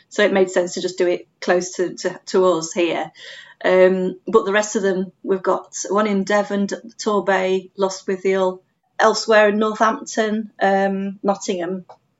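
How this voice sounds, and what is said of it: Northern English accent. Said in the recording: “I can detect a northern accent there.”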